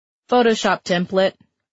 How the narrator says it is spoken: the praying mantis said in a bored tone that indicated the question was not a new one

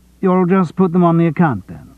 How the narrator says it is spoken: He kept his voice as matter-of-fact as he could

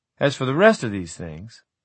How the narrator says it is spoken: he laughed

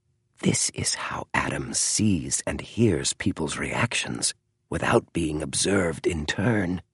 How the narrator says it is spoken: whispered James

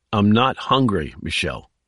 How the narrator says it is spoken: he said firmly

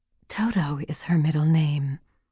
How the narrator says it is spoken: she whispered

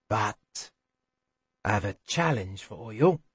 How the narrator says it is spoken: to say softly

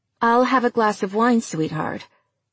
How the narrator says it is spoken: Daphne said

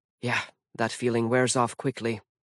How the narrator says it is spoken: Mallory muttered

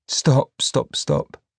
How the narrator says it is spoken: told her gently

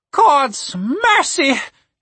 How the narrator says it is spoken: She said between pants

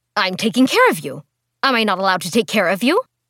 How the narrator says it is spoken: Mai snapped at her

